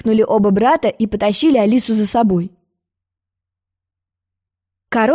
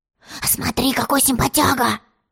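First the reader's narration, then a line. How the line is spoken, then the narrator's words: Whisper. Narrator (Russian): шепнул тец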